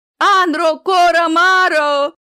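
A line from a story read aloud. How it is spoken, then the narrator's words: Terrified scream, gnome. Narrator (Russian): завопил гном, пятясь, ощущая с ужасом дымящуюся проплешину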